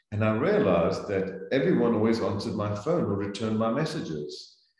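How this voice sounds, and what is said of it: Non-American foreign accent. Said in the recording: “this accent... you have to learn to speak American... sound Americanized... the Americans love an accent”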